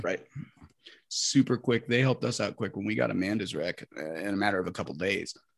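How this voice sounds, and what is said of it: Low raspy voice with vocal fry. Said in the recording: “I've got that fucking tone low, raspy voice going on ... Fucking vocal fry.”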